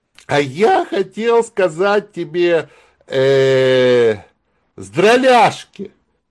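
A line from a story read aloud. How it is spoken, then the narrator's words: Laughing. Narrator (Russian): Зайка рассмеялся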